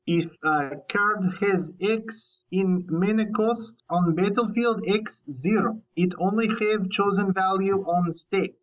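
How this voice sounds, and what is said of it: Bad put-on Russian accent. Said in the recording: “Remainder of the interview will be in bad Russian accent.”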